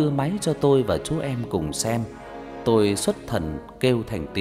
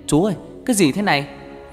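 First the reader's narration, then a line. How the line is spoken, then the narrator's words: Sudden shout. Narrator (Vietnamese): nó bất ngờ hét lên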